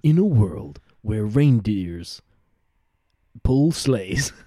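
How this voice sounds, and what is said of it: Dramatic movie trailer narrator voice. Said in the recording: “We need the trailer voice”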